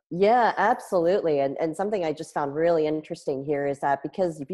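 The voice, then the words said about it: Strained voice. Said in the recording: “My voice is a little bit strained today”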